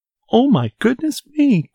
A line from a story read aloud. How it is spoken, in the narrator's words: cried Goldilocks